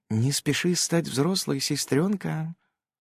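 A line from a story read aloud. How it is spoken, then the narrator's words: Whispered. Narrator (Russian): прошептала она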